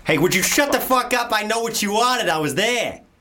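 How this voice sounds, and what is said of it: Put-on Boston accent. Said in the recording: “Do your Boston. Your Boston was good.”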